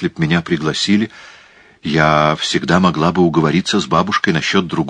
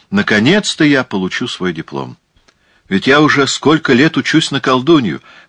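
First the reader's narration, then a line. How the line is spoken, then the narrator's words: Loud. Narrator (Russian): сказала громко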